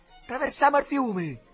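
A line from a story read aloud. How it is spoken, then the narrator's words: Shouted from below. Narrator (Italian): gridò al Duccio da sotto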